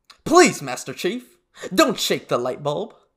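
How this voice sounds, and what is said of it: Imitates a video game sergeant's voice. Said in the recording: “my next Sergeant Johnson impression ... he's dead on. Dude, that's dead on.”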